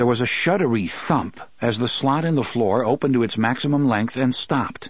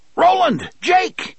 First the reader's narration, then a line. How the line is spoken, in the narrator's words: Eddie shouted